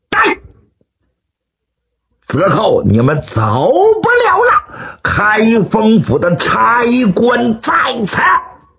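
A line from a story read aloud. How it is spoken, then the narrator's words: Loud shout. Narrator (Chinese): 刘世杰高声喝喊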